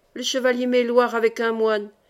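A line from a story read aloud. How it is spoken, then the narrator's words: Breathless exclamation. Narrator (French): s'écria Julien le Priol, essoufflé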